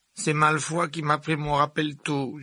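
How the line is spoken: Whining moan. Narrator (French): gémit Neville

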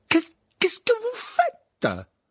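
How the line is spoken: Stammered. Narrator (French): balbutia le professeur McGonagall

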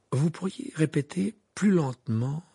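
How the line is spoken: Timid question. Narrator (French): demanda-t-il d'une voix timide

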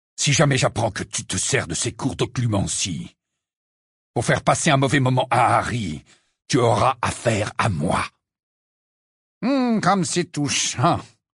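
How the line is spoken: Sneering. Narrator (French): ricana Rogue

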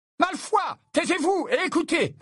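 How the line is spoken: Teacher barking sharply. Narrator (French): aboya le professeur McGonagall

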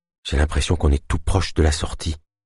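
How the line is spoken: Low muffled murmur. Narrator (French): murmura-t-elle d'une voix sourde

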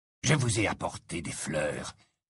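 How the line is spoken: Low voice. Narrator (French): dit à voix basse

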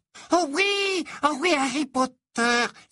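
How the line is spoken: Excited exclamation. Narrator (French): s'exclama aussitôt Dobby, ses grands yeux brillants d'excitation

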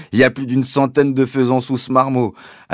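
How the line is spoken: Joyful father. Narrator (French): a dit mon père d'un ton joyeux

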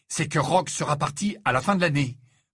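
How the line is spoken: Fierce declaration. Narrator (French): déclara-t-il d'un ton féroce

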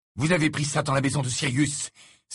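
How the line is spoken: Exclaiming. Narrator (French): s'exclama Harry

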